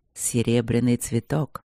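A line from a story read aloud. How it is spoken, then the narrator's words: Hoarse. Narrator (Russian): говорит он хрипло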